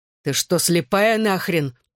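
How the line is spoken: Roaring. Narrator (Russian): проревел он

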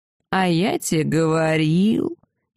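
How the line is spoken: Sarcastic drawl. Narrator (Russian): язвительно протянул древний

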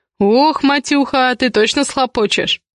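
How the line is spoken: Chuckling. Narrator (Russian): хохотнул Миша

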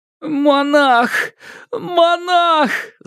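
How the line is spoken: Moaning young man. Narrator (Russian): застонал юноша

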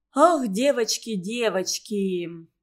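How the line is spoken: Sudden sigh. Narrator (Russian): неожиданно вздохнула Валя

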